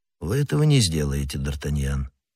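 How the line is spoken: Cold statement. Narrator (Russian): холодно сказал Атос

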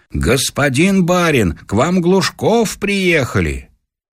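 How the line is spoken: Shouted. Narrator (Russian): чей-то голос крикнул

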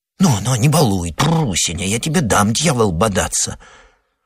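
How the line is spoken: Coaxing whisper. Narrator (Russian): Шепотом уламывала ее хозяйка

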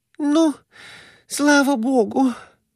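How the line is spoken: Moaning. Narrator (Russian): простонала Глафира Семеновна

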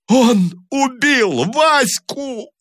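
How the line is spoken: Sobbing wail. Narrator (Russian): рыдающим голосом вопил Таманцев

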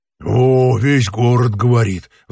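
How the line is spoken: Sighing. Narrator (Russian): вздохнул другой

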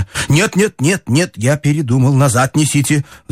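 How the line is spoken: Agitated speech. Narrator (Russian): взволнованно проговорил ему Иван Ильич

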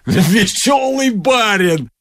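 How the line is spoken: Coachman exclaiming. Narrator (Russian): воскликнул извозчик

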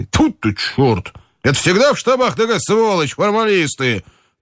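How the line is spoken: Shouting. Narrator (Russian): крикнул Соколовский

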